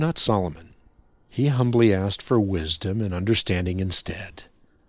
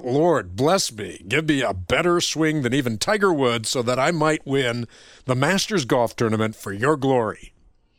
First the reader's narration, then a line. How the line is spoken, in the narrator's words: blurting out